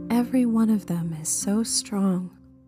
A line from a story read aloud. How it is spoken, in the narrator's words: Cheryl says softly across their bond, a contemplative wonder to the tone of her voice